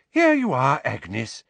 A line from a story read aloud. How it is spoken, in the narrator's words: said the healer brightly